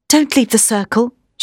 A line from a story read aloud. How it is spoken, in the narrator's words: she said